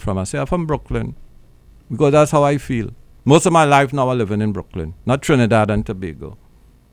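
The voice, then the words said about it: Speaks with a Trinidadian accent. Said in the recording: “me with my accent”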